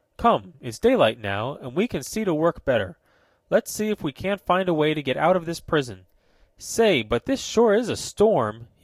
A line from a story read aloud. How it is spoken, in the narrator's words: he cried